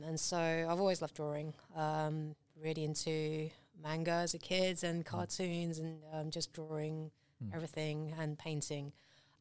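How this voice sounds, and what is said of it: British English accent. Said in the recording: “I'm still holding on to my British accent”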